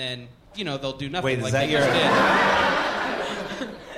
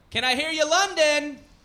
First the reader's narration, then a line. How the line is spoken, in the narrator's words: you can just yell